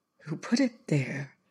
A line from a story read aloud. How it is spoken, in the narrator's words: Lindor said in a whisper